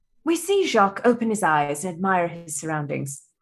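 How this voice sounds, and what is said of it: Put-on British nature-documentary narrator accent. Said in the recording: “a documentary narration ... a la David Attenborough ... I will be doing my best British accent”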